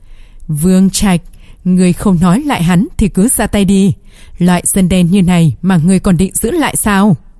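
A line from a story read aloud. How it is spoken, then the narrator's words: Young man laughing loudly. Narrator (Vietnamese): Thanh niên mặc áo trắng bật cười ha ha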